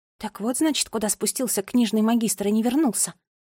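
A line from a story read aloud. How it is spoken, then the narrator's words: Quiet question. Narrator (Russian): тихо спросила Нола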